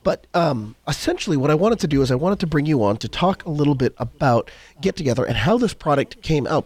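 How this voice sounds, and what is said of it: Crackly, hoarse voice. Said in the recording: “apologize for my voice. ... It's a little bit crackly. I'm just getting over a bit of a cold.”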